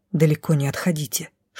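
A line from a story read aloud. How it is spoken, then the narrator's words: Quiet whisper, woman. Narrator (Russian): шепнула негромко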